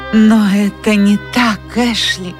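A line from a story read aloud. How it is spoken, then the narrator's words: Exclaimed. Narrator (Russian): воскликнула она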